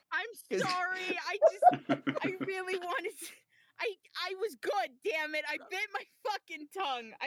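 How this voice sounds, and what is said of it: New York accent. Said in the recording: “You still got that New York accent going on too.”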